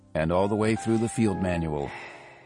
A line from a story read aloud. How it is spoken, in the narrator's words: the armorer sighed with pleasure